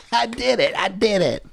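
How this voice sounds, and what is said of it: Imitates another person's voice. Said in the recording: “Great Matt Damon impression.”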